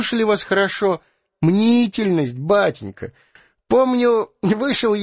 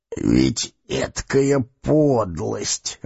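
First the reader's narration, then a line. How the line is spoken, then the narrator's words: Grumbling. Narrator (Russian): ворчал следователь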